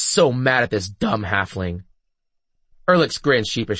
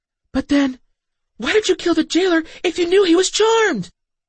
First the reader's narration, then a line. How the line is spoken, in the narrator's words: nearly shrieked